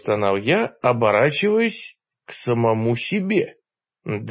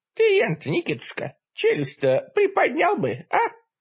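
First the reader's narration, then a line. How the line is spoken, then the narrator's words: Grumbling old voice. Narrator (Russian): ворчливым старущим голосом сказал мне я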